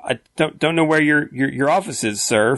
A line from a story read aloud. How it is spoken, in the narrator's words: Figment stuttered